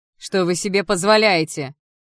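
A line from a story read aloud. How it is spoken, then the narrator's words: Breathless shout. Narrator (Russian): выкрикнула я, тяжело дыша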